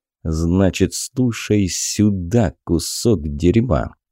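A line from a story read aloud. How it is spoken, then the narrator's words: Hissed into ear. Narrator (Russian): прошипел он ему на ухо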